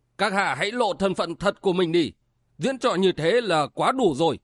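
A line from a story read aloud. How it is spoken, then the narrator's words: Sudden shout. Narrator (Vietnamese): Bát Tý Thần Sát Cổ Tử Quân chợt quát lên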